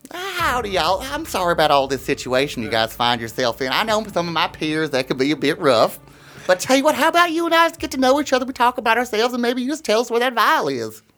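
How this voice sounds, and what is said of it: Down-home country accent. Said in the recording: “You have a down-home country accent.”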